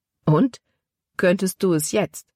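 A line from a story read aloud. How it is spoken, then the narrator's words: Plain. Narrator (German): fragte Caleb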